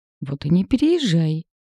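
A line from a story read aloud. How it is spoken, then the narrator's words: Petulant exclamation. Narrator (Russian): капризно воскликнул Андрей, не желая жить в одиночестве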